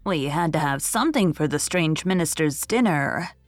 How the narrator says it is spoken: she said

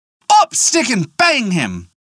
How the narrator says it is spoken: he cried

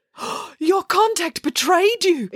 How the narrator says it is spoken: exclaimed Dad

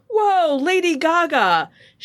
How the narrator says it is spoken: as the crowd cheered, and Bennett exclaimed

